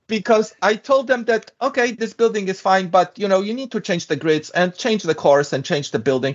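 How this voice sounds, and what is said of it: European-accented English. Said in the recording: “my European accent”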